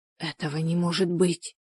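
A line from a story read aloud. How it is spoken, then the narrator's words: Whispered. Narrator (Russian): прошептала она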